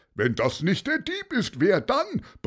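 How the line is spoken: Another voice bellowing. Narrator (German): brüllte noch jemand

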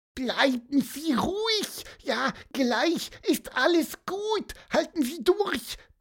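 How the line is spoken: Squeaky voice. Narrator (German): piepste Pieper

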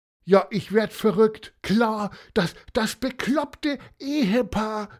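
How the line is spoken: Call. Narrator (German): rief er

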